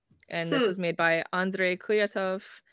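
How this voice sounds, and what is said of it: Put-on French accent. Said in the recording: “I keep trying to say that with like a French accent.”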